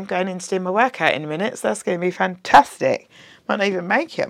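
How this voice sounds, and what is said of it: Husky, deep, tired voice. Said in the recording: “my very husky, deep voice... That's what happens when you go out 2 nights in a row. You don't get a lot of sleep.”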